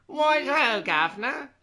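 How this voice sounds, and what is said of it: Put-on Cockney accent. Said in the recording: “he's almost got a Cockney accent ... that sort of thing ... Cyril has that definitely Cockney accent”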